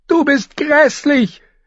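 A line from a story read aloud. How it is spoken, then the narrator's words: Shouted at sister. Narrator (German): schrie sie ihre Schwester an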